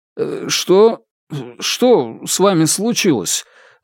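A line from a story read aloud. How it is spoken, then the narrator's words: Stuttering, forced out. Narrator (Russian): заикаясь, наконец выдавил он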